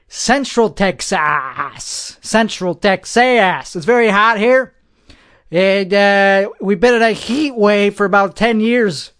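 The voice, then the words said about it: Texan accent. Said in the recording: “That's an authentic accent ... I am an authentic Texan”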